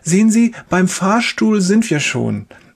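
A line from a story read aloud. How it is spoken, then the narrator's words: Cheerful nurse. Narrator (German): sagt die Schwester fröhlich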